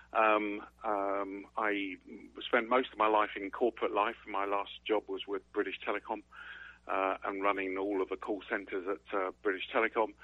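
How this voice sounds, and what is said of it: English accent. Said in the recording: “You can tell from my accent, I was actually originally born in England.”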